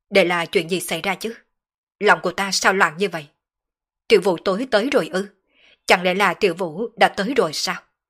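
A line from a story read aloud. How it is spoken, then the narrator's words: Troubled agitated muttering. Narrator (Vietnamese): Sở Dương nhíu mày, đột nhiên trở nên tâm phiền ý loạn, không chế không nổi tâm tình muốn phát tiết, hắn lẩm bẩm nói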